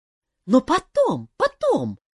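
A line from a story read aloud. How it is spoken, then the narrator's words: Exclamation. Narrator (Russian): воскликнула Морриган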